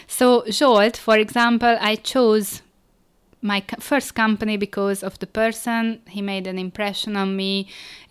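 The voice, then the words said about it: Hungarian accent. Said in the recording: “I'm Hungarian, by the way, if you were wondering about my accent.”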